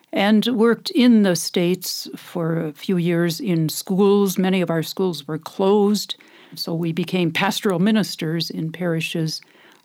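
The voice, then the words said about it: American Midwestern accent. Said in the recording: “accent, I'm from America. I haven't lost that accent after all these years here. But I grew up in the Midwest”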